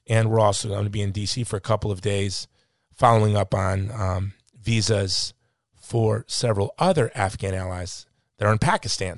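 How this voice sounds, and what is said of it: Exhausted, tired voice. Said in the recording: “You could probably hear in my voice, I am a bit exhausted. I'm a bit tired.”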